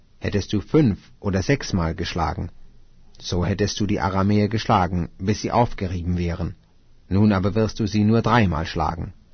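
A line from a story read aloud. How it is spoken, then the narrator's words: Angry man speaking. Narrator (German): Da wurde der Mann Gottes zornig auf ihn und sprach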